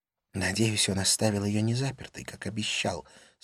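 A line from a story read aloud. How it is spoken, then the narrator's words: Whisper. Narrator (Russian): сказала она шепотом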